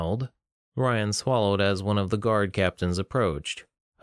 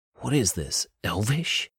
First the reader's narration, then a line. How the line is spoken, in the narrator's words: William whispered to Ryan